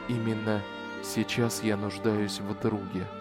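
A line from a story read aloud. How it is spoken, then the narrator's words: Whispered. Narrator (Russian): прошептал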